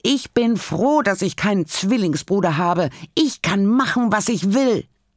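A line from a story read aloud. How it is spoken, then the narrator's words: Shouts. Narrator (German): schreit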